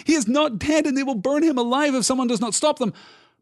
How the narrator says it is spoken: cried Pippin

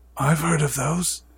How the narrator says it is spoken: he said in a hushed voice

